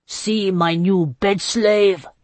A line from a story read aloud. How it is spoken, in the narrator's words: he roared